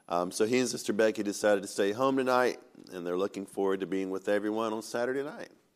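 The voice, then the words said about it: Rough, very deep congested voice. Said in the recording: “my voice sounds a little rough, too. I've got a little bit of a sinus infection. ... But my voice sounds a little rough. ... I guess when you're bass already and this happens, then you become really basic.”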